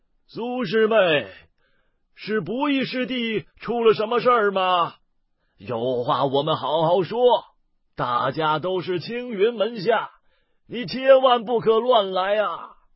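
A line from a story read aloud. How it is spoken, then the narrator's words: Aged old man's voice. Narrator (Chinese): 苍老的声音却是那位头发更黑些的老者所发出来的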